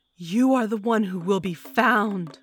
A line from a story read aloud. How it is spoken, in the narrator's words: I bellowed at the man